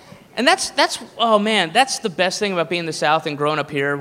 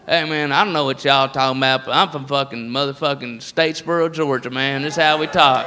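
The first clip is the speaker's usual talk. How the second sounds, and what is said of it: Put-on redneck Southern accent. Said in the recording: “the redneck voice is all over the place”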